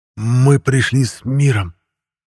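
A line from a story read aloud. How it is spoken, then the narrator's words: Breathless exhale. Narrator (Russian): Выдохнул я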